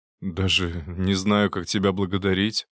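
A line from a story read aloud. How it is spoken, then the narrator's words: Sighing. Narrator (Russian): вздохнул он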